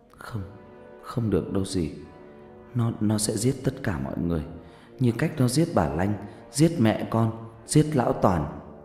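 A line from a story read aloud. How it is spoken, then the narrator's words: Trembling voice. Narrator (Vietnamese): Vân run rẩy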